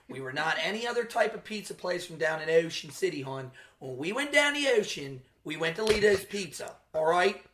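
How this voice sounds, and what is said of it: Exaggerated Baltimore accent. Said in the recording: “Whenever you do your Baltimore accent, you sound like... Dennis from It's Always Sunny doing a Philly accent. ... the truly trashy Baltimore accent ... that rich mid-Atlantic O.”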